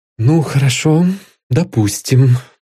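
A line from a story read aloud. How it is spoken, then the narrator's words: Weary, regretful. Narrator (Russian): устало выговорил, пожалев, что ввязался в беседу с этим говоруном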